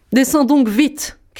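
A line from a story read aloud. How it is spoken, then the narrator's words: Shouted. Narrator (French): criait la Barbe Bleue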